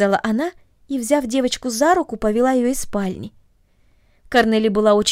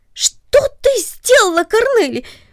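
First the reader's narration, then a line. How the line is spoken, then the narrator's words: Sudden surprised cry. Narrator (Russian): вскрикнул он от внезапного удивления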